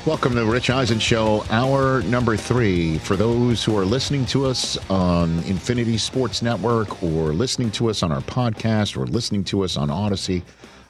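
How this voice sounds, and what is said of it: Put-on radio announcer voice. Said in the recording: “I like talking like this because it's my radio voice.”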